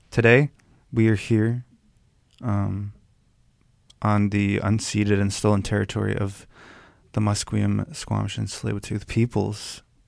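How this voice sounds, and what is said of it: Rough, strained voice. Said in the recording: “sorry, my voice is messed up.”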